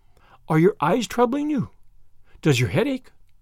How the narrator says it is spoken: queried Anne anxiously

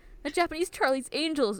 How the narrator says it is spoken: Uo shouts in admiration

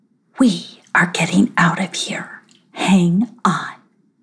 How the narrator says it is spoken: whispered to her

